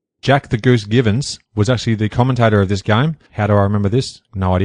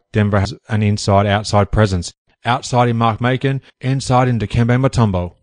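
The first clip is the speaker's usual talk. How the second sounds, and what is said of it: Impression of a sports commentator. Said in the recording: “worst ever impression of a commentator I've heard ... From an audio standpoint, that wasn't a bad impersonation of the Goose.”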